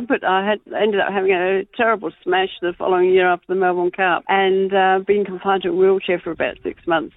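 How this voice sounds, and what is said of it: English accent with slight Australian tinge. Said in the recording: “you've done well to resist the bulk of the Aussie accent. I thought it might have been a bit stronger by now ... with an English background, and you always pick up a little bit everywhere you go”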